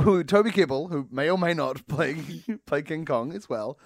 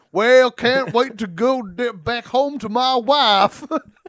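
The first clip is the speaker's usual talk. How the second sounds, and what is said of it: Exaggerated improv-style Southern accent. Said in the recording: “is like a southerner who's like, but he's like a guy in an improv scene playing a southerner”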